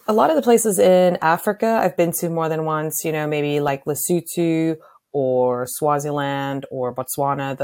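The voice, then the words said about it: South African accent. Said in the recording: “obviously you have an accent ... I am from South Africa”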